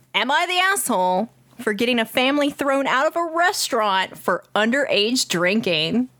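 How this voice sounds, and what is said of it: Imitates another person's voice. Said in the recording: “I'm gonna read it in my stupid AJ voice.”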